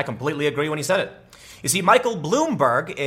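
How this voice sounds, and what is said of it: Usual voice. Nothing is said of it.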